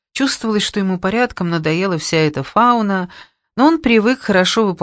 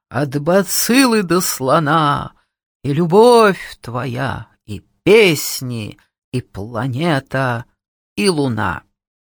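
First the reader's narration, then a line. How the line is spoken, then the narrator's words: Sepulchral howl. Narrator (Russian): загробным голосом завыла я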